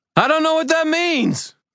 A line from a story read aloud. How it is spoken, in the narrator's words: I screamed